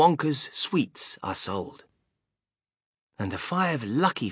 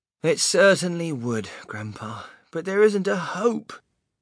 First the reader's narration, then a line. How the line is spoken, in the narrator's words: Charlie said sadly